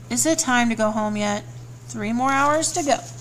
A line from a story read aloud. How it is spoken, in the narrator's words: Vlad mumbled